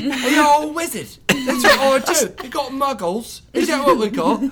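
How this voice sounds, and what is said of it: Teenage home counties English accent. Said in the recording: “It's like a teenage home counties accent ... And that's pretty good.”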